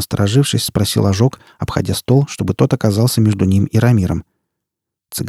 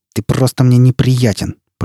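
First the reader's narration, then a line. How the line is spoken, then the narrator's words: Through gritted teeth. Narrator (Russian): процедил он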